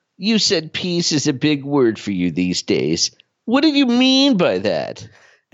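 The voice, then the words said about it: Smarmy news voiceover voice. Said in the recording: “the smarmiest news voiceover since John Stossel ... your Wertheim impression”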